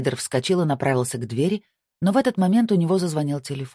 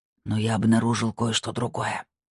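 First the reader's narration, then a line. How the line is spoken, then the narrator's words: Whispered. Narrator (Russian): прошептал Кшиштов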